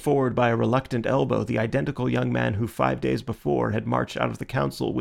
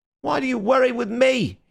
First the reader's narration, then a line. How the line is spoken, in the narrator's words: he cried